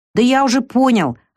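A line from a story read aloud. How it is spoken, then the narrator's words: Irritated, dismissive. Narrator (Russian): раздраженно отмахнулся Лукас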